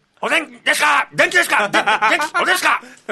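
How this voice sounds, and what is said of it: Imitates another person's voice. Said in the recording (Japanese): “食レポモノマネ。...もしもアントニオ猪木が、熱々のおでんを食べたら。”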